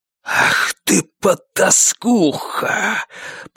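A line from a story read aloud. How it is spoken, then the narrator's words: Hissed. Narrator (Russian): прошипел он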